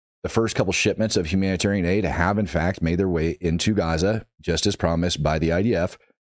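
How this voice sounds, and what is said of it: Hoarse, worn-out voice. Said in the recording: “you guys can tell that my voice is shot right now, I've been slamming some honey, like trying to get my voice back”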